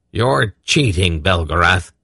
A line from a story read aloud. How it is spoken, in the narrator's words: Belden growled